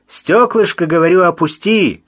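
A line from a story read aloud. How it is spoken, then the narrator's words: Loud. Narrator (Russian): громко сказал Мазур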